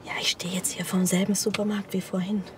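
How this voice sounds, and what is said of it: Whispering. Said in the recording (German): “warum flüsterst du?”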